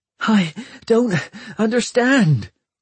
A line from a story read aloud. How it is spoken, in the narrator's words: gasped Hester, talking to herself